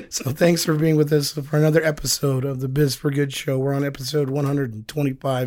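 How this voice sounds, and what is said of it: Hoarse, nearly lost voice. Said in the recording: “doing this without a voice”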